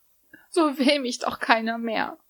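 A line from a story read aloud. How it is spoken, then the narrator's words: Young woman sobbing. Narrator (German): schluchzte die junge Frau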